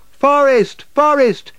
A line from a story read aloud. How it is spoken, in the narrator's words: shouted Ruth